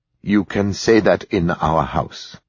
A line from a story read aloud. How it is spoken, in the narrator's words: he said, looking gravely